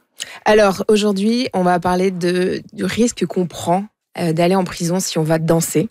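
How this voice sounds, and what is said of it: Speaks with a noticeable accent. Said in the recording (French): “On ne se moquera pas de mon accent ce matin.”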